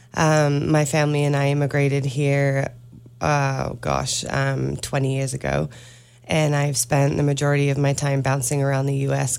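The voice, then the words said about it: British accent. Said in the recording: “I detect a little bit of an accent ... I'm originally from the UK”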